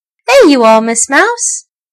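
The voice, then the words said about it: Hearty, laughing character voice. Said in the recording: “laughed the stuffed elephant in his hearty voice”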